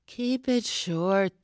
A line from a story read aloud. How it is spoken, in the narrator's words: the exhausted editor sighed on the phone